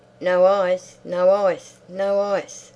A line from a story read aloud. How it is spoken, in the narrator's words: shouted gaily